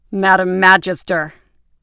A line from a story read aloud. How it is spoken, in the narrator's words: he intoned, his deep voice carrying a thick Boston accent